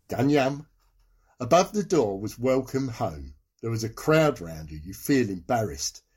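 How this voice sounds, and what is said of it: Tyneside accent. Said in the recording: “Now, I want that Tyneside accent again.”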